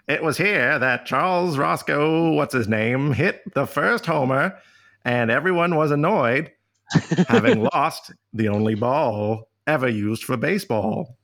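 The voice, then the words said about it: Old-timey late-1800s speaking style. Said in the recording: “That's how they talked in the late 19th century. ... That's a very good impression.”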